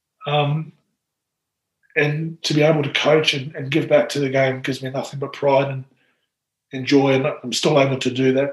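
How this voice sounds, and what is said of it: New Zealand/Australian accent. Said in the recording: “you still get your Kiwi/Australian accent”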